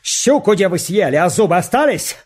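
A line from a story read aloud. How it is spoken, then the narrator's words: Shouted while led to hanging. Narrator (Russian): Фалалеев, стрелец, как повели его вешать, крикнул солдатам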